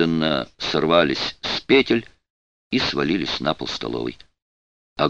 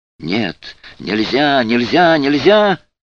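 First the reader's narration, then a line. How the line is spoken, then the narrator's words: Voiceless panicked shrieking. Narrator (Russian): Существо визжало, визжало, но голоса уже не было, Осталась лишь воющая паника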